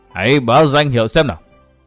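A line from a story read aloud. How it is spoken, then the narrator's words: Cold roaring demand. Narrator (Vietnamese): lạnh lùng gầm thét nói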